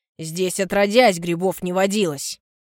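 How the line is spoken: Angry curt remark. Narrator (Russian): Зло роняет Баженов

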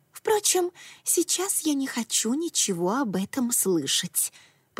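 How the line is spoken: Whispered. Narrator (Russian): прошептала

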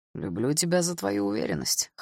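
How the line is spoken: Orc's amused snort. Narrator (Russian): хмыкнул орк

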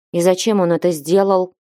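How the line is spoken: Angry question. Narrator (Russian): спросила она сердито

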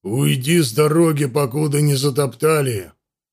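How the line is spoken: Displeased growl, mighty man. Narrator (Russian): недовольно рыкнул могучий Бьяр

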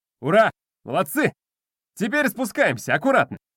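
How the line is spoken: Shouted. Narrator (Russian): крикнул Вадик

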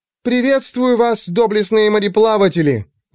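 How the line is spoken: Ringing shout. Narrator (Russian): звонко выкрикнула она

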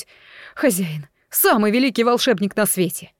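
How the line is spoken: Exclaiming. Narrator (Russian): воскликнуть

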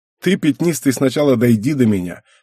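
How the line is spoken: Smirking reply. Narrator (Russian): хмыкнул я в ответ

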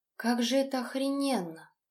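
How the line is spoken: Bewildered awed whisper. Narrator (Russian): как-то растерянно прошептала Тоня

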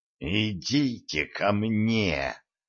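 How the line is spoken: Hissed. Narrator (Russian): прошипел Некрон

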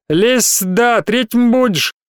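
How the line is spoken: Off-key howl. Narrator (Russian): тот же голос неточно взвыл

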